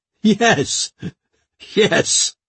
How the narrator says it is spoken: he spluttered

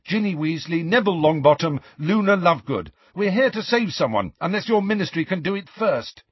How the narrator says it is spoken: Harry said very quickly

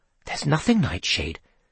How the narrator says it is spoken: Seth breathed

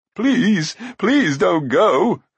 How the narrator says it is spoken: cried Glue

